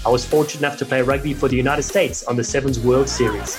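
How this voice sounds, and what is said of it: South African accent. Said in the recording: “despite my South African accent”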